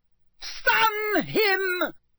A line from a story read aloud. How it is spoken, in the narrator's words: he heard Voldemort scream